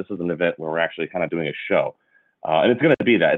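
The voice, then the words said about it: Strange, cold-affected voice. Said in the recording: “I'm still recovering a little bit from my insane cold that won't go away, so I apologize if my voice sounds a little strange.”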